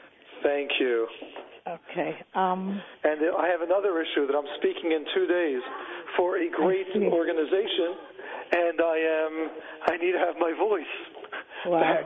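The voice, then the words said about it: Strained, impaired speaking voice. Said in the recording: “sorry for your voice problem”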